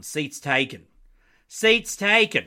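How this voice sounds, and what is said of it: Put-on Southern accent. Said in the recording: “Is that a good Southern accent? I hope so.”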